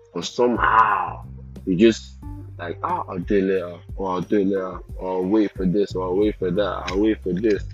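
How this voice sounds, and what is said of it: Speaks with a noticeable accent. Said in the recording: “Excuse my accent, it will change back to normal very soon ... why I've got an accent ... That's really where I got my accent”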